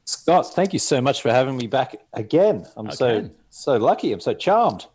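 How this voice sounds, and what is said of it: Australian accent. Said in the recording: “I just missed your accent ... rocking the Australian accent”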